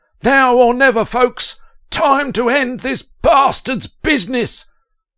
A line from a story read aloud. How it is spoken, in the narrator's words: Regretting his decision to start this whole damn thing, Stoven cried at the top of his voice